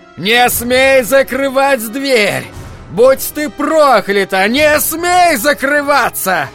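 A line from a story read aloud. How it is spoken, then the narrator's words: Angry shouting. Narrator (Russian): Джек кричал на нее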